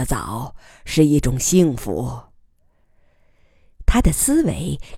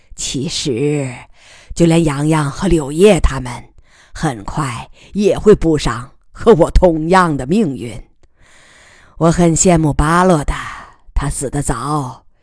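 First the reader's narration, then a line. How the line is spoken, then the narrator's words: Sighing. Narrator (Chinese): 他叹息道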